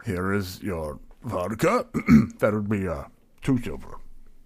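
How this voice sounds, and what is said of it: Put-on character accent. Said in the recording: “I'm distracted by this accent.”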